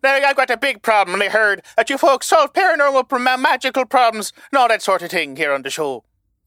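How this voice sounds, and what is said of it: Leprechaun character voice with accent. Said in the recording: “I'm a leprechaun. I'm not Irish. I'm a leprechaun, so please don't badger about me accent. It's just how me talk.”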